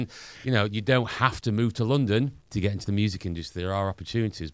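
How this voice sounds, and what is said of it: Northern English accent. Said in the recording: “We're Northerners, as you can probably tell by my accent.”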